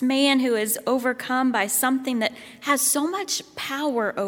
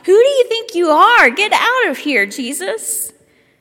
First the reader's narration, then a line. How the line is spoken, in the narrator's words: the man who is so caught off guard by Jesus that he cries out